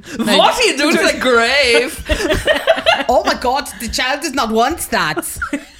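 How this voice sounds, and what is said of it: Put-on Danish accent. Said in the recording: “I'm 20% Danish, so I can do that ... doing 20% of the accent”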